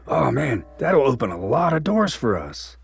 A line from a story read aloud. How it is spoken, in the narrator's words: Logan said excitedly